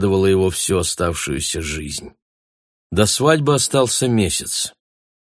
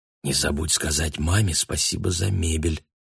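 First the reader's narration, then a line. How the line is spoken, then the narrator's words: Whisper. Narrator (Russian): шепнула ему Анна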